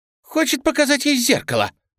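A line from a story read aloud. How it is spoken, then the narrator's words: Shrieking. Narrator (Russian): взвизгнула Марта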